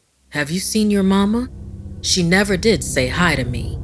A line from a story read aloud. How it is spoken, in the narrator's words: Poppy said grimly